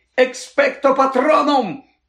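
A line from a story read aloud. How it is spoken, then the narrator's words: Shrieking. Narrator (Ukrainian): заверещав Гаррі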